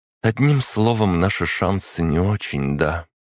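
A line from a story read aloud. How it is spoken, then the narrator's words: Soft, casual. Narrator (Russian): Варвара говорила мягко, словно речь шла о шансах выиграть у Чернышова в шахматы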